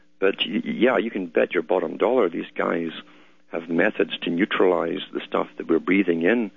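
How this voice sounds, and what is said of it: Scottish accent. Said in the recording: “I detect a Scots accent. I may be wrong, but I do.”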